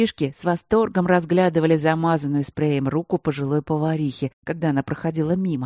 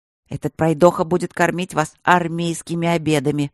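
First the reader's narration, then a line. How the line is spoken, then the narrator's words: Displeased grumble, relenting. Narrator (Russian): недовольно пробурчала повариха, уже сдаваясь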